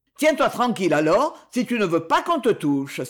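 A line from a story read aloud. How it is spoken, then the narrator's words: Exclaimed together. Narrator (French): s'écrièrent les autres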